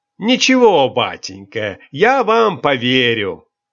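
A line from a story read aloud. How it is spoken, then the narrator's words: Loud, good-natured. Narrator (Russian): Добродушный штабс-капитан громко отвечал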